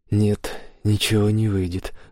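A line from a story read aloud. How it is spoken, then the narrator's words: Sigh. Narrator (Russian): вздохнул Саймон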